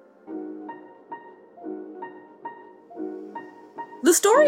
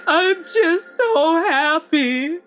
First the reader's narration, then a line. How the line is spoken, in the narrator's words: she chokes out through her sobs